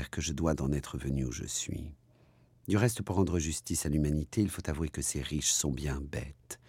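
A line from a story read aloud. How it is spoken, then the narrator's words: Muttering to herself. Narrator (French): se disait tout bas Becky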